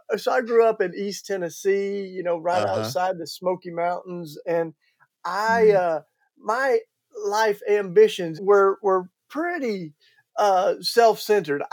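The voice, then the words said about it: Southern American accent. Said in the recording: “I can't hide it with my Southern accent. ... It's noticeable”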